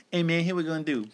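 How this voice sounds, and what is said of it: Imitates another person's voice, admittedly bad. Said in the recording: “my bad ish impression ... from Pimp My Ride ... it's Buck Nasty from Chappelle's Show”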